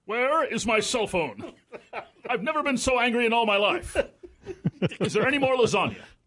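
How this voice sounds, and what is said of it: Impersonation of the host. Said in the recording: “impersonation of me”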